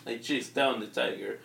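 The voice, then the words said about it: Funny put-on Russian accent. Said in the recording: “He's Russian too, so you get that funny accent.”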